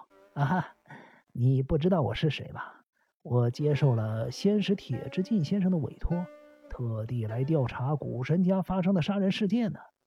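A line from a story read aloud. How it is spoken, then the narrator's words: Smiling. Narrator (Chinese): 金田一耕助，他依然露出了一脸笑容的说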